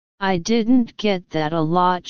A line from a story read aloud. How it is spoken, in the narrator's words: she said